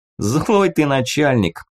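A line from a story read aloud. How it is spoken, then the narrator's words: Laughing chuckle. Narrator (Russian): хохотнул командир добытчиков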